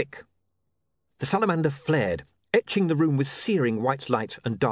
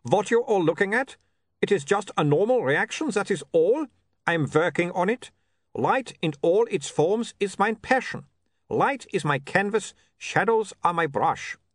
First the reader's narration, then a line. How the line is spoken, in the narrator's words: he said sternly